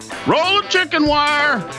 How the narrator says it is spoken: The boy yells back

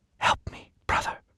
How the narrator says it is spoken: whispered

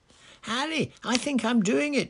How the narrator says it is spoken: yelled Seamus

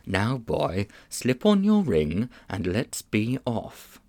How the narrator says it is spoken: the old man put his mouth so close to Diggory's ear it tickled, and whispered

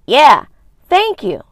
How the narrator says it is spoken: Gemma called out

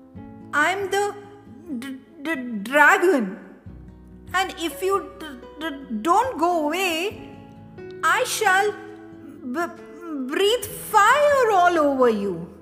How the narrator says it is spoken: stuttered the voice

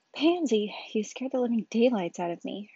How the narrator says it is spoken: Hermione sighed, where she could feel her heart beating frantically

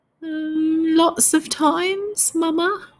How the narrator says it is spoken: whimpered the giant

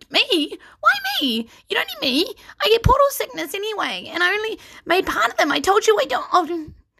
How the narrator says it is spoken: Rusty squeaked

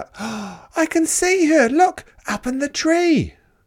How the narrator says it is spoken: Suddenly, Grandma called out

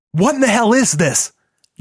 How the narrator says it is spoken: John cried over the klaxon

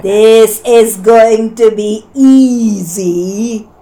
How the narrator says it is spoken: jeered

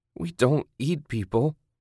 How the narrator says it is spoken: she whined

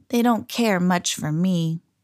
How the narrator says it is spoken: said Alexander sadly

